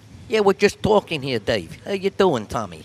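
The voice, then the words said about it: Put-on New York accent. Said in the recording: “your New York accent”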